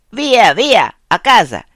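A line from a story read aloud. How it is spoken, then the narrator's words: German shouting broken Italian. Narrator (Italian): Un ultimo tedesco gridando in cattivo italiano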